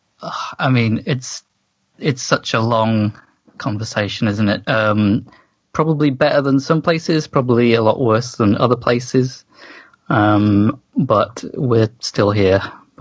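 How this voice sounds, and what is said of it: English accent. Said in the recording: “your really cool, you know, accent ... How's it going in England?”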